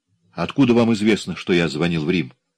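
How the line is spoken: Calm, composed speech. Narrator (Russian): Собравшись, он вновь заговорил спокойно

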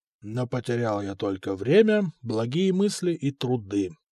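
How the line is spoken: Under the breath. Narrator (Russian): повторил вполголоса

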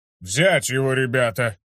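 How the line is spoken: Loud barking shout. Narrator (Russian): Гейл громко рявкнул

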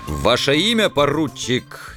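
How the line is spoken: Sudden commanding bark. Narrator (Russian): неожиданно рявкнул командирским голосом

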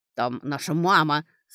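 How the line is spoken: Through clenched teeth. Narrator (Russian): сквозь зубы процедил он

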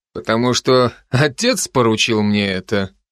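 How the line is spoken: Mocking. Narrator (Russian): насмешливо предположил Райан

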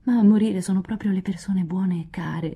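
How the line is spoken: Moaning. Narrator (Italian): gemette Joe, che tuttavia smise di piangere

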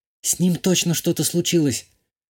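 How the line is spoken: Whispered. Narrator (Russian): прошептала Шитова

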